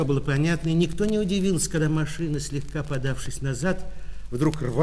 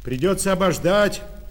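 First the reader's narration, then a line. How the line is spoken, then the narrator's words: Driver shouting. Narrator (Russian): крикнул шофер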